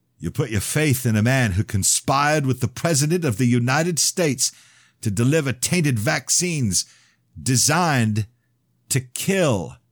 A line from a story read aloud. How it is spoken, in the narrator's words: Father shouts